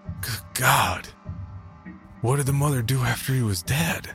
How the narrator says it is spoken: my suddenly parched throat … gasped

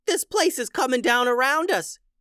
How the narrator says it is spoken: yelled Bob

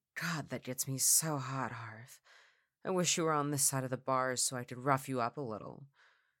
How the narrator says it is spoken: She giggled and whispered

